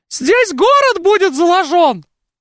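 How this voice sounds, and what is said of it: Parody impression of Peter the Great. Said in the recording (Russian): “моя лучшая пародия — это пародия на Петра Первого. Да, я лучше всех пародирую Петра Первого ... Вот так говорил Петр Первый.”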